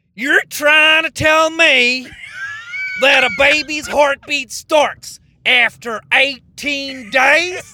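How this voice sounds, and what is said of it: Deliberately bad Southern US accent. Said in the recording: “doing a Southern impression ... there's no way it's good ... the charm is in maybe how bad it is”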